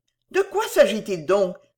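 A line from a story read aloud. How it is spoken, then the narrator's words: Exclamation. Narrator (French): s'écria Madame Belfield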